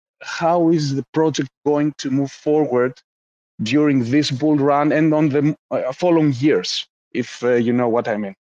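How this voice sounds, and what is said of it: Greek accent. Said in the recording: “I can tell the Greek accent.”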